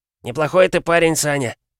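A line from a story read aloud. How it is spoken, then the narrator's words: Sighing. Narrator (Russian): вздохнул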